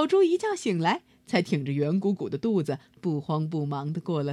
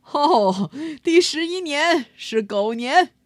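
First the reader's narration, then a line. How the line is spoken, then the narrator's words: Laughing heartily. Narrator (Chinese): 玉皇大帝哈哈大笑着说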